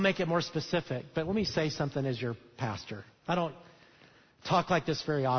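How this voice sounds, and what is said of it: Usual voice. Nothing is said of it.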